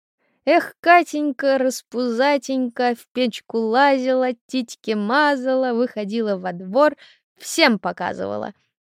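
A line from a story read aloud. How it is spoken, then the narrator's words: Rowdy children shouting. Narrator (Russian): Кричали на нее шебутные дети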